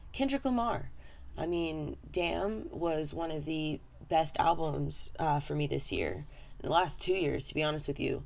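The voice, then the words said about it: Slightly hoarse, fading voice. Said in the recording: “I'm losing my voice just a bit”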